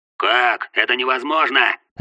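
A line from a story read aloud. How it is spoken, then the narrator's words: Sharp shout. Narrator (Russian): резко крикнул Шэдоу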